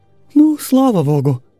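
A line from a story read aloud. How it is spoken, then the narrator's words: General's wife sighing. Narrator (Russian): вздохнула генеральша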